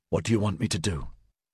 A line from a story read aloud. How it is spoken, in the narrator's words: She lowered her voice